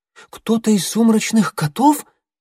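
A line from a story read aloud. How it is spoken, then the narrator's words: Anxious question. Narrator (Russian): взволнованно уточнила Белоснежка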